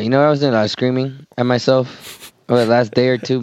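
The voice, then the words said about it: Raspy, hoarse voice. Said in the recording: “your voice is a little raspy ... It's always raspy.”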